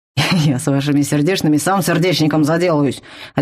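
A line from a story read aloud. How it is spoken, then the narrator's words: Barking troll. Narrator (Russian): рявкнул тролль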